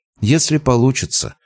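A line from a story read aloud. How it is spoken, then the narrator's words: Gloomy reply. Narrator (Russian): мрачно отозвалась Дарина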